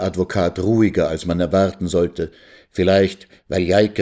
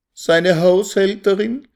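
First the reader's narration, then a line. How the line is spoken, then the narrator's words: Wailing. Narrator (German): jammerte Resel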